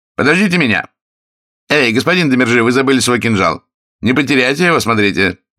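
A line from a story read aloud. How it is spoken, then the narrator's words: Shouting. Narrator (Russian): он крикнул им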